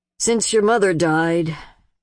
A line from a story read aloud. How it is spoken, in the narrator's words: and the sigh